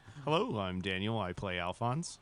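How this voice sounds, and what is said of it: Smooth, even radio-announcer voice. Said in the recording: “good radio voice ... It was just the right tone, yeah. Nice and even.”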